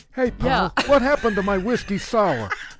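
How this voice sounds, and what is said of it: Softer talking-dog character voice. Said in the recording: “The dog was a little more softer like this.”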